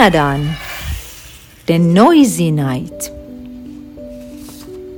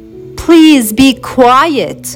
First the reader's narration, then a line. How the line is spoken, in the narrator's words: Isaac shouted